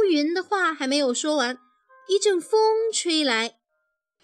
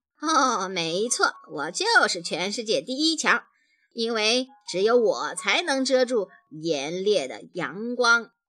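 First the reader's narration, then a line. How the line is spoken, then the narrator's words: Laughing. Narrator (Chinese): 乌云笑着说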